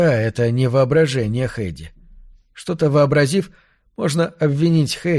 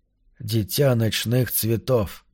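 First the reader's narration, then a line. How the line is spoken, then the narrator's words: Whisper. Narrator (Russian): прошептал он в темноте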